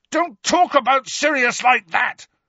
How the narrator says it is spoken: Harry yelled

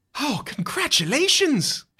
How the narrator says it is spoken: She exclaims

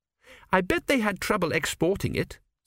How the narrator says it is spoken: said Petrachi firmly

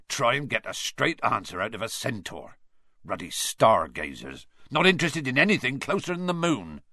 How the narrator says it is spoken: said Hagrid irritably

